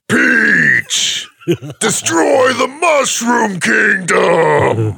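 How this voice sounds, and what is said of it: Bowser impression. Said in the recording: “could do a pretty solid Bowser impression ... I think I could do a good Bowser.”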